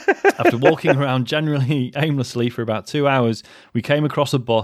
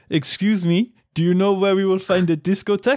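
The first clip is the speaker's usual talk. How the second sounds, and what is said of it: Put-on French accent. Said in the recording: “I'm going to do the voice ... with a faux French accent ... That was a faux ... French accent”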